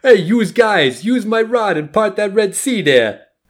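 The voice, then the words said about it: Brooklyn accent as voice of God. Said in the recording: “It's almost like a Brooklyn accent that God has at that one word. I was like, wait, why is God talking like that?”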